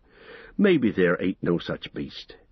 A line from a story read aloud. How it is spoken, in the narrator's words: he sighed